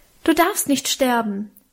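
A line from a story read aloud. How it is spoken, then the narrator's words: Passionate call. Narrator (German): rief ich leidenschaftlich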